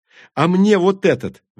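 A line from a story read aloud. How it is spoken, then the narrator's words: Excited yell. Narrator (Russian): возбужденно завопила Тури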